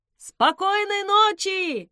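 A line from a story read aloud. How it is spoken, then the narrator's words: Shout. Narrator (Russian): крикнул он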